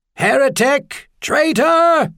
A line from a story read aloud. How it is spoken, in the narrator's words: someone screamed